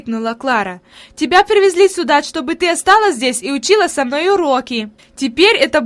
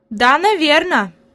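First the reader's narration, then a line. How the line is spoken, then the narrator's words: Plain. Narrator (Russian): ответила Хайди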